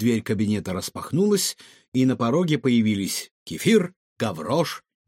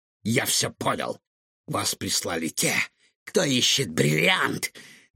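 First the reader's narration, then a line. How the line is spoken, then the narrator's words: Furious hiss. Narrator (Russian): яростно прошипел он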